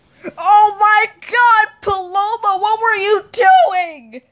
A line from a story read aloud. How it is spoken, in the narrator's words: Charles screamed